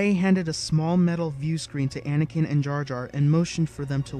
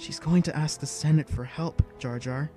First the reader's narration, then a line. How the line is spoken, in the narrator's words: he whispered, excitedly